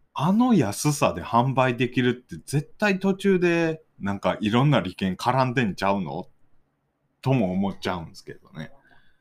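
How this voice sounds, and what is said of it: Heavy Kansai dialect. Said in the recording (Japanese): “ごってごての関西弁”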